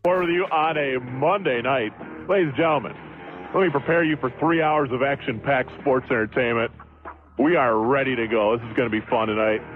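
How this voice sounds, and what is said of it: Put-on announcer radio voice. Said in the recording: “It's a radio voice. ... But you feel like you're tossing a little radio voice in. ... Yeah, I turned up a notch here.”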